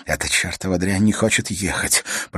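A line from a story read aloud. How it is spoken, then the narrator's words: Whispered. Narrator (Russian): прошептал Свен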